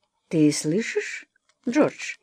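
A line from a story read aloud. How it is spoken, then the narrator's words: Soft, father speaking. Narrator (Russian): мягко сказал отец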